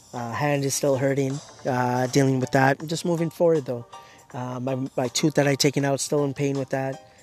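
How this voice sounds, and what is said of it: Slightly raspy, hoarse voice. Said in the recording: “Still getting over my losing my throat, losing my voice. Still getting better, but still raspy a little bit.”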